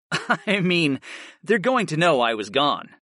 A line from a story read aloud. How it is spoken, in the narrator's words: I chuckled